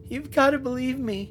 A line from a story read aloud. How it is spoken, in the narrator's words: Brent pleaded from the bed